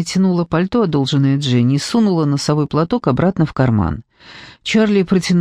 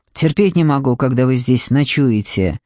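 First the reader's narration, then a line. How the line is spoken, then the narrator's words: Grumbling. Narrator (Russian): проворчал клерк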